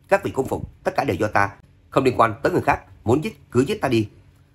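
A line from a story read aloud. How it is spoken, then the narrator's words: Sudden loud shout. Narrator (Vietnamese): Lê Nhi chợt hét to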